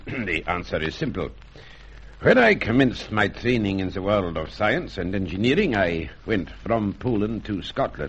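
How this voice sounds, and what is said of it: English with a Scots accent. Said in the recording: “I speak English with something of a Scots accent.”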